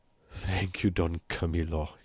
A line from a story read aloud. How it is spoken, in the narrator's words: he murmured